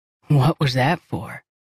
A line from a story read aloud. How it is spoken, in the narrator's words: He asked, his voice raspy